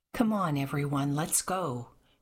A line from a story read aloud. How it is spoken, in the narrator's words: said Sebastian